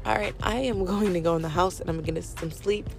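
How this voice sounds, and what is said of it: Tired voice going in and out. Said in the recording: “I'm pretty sure that I sound... like, my voice is going in and out ... it's because I'm tired.”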